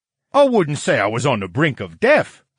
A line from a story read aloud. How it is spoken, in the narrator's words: the brain cried